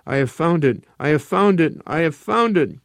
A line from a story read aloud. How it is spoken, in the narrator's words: he laughed wildly